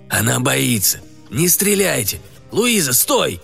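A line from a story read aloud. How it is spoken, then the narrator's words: Old man's hoarse shout. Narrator (Russian): Хриплый крик старика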